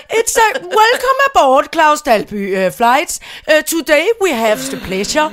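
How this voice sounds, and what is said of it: Heavy Danish accent in English. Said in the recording (Danish): “den danske accent, ... som er ... pænt tung.”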